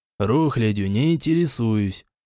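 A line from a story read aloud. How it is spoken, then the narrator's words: Dry muttering. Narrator (Russian): сухо пробормотал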